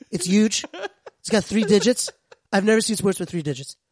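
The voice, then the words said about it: Donald Trump impression. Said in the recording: “reminds me of a certain charismatic young man named Donald Trump ... impersonations ... We got a good impression.”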